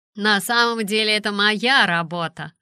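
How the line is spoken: Joking tone. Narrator (Russian): сказал Эдди шутливым тоном

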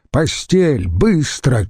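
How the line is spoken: Shouted. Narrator (Russian): крикнул Скола

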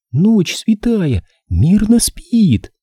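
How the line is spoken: Trembling singing voice. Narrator (Russian): запела дрожащим голоском

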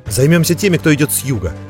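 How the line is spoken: Shout. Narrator (Russian): крикнул Монтолио

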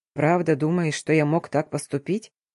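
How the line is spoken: Quiet question. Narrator (Russian): Тихо поинтересовался Тамир

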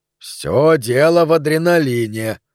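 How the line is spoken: Booming laughter. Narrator (Russian): раскатисто хохотал кудрявый врач-египтянин

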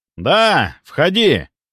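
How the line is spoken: Shouted back. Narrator (Russian): прокричал я в ответ

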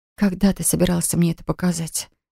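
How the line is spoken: Breathless. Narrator (Russian): выдохнула я

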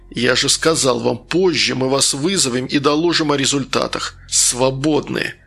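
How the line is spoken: Hissed. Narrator (Russian): прошипел Штук

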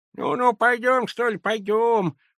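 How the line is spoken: Toothless mumble. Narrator (Russian): прошамкала она

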